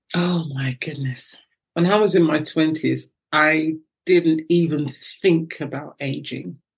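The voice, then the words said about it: British accent. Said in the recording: “I love your accent ... she can nail a British accent ... your accent is lovely”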